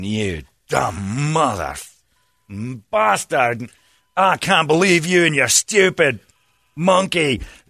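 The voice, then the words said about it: Put-on Scottish accent, angry. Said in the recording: “I was doing it in a Scottish accent... I was Willie, groundskeeper Willie”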